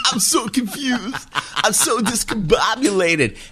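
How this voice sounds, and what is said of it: Barbarino impression. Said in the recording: “all I was doing was Barbarino impressions ... that's a great impression”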